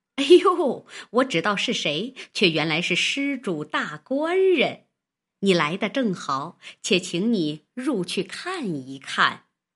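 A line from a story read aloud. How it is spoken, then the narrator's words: Old woman laughing. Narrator (Chinese): 那婆子 笑道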